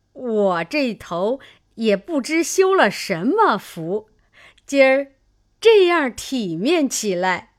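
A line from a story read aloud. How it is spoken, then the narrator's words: Old woman laughing. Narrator (Chinese): 刘姥姥笑道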